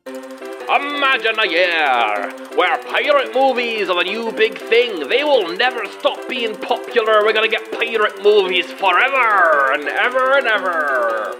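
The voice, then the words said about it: Inconsistent put-on accent. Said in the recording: “My accent is very inconsistent.”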